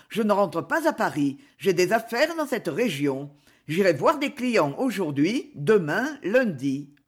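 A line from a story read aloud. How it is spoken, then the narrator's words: Quick, brisk. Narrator (French): fit-il vivement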